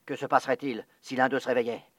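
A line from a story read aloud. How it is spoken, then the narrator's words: Fearful murmur. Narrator (French): murmura le chef de l'armée de terre, dont les genoux s'entrechoquaient sous l'effet de la peur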